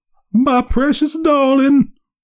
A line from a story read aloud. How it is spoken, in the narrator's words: wailed the mother